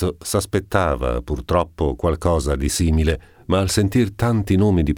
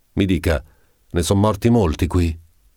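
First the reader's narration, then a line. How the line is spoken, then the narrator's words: Exclamation. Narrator (Italian): Esclamò Don Abbondio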